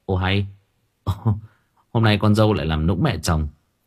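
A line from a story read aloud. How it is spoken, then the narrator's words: Laughing. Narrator (Vietnamese): Bình bật cười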